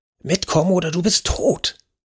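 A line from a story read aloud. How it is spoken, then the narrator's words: Hissed. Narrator (German): zischte Alberta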